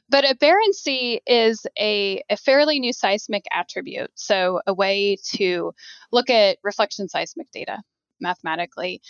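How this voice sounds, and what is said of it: Southern American accent. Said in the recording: “sometimes I got a southern accent”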